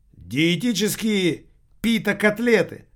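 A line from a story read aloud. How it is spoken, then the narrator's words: Exclamation. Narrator (Russian): воскликнул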